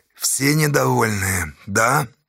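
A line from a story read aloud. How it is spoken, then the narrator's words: Hoarse question. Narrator (Russian): хрипло спросил Асташа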